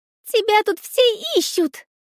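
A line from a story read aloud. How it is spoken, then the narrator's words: Agitated. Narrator (Russian): взволнованно проговорила она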